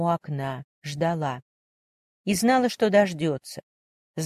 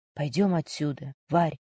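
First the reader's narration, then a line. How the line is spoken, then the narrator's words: Quiet whisper in ear. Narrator (Russian): тихо прошептал ей на ухо Антон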